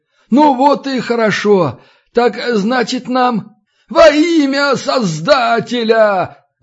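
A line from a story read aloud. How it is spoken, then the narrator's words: Loud booming shout. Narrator (Russian): Заорал знакомый зычный голос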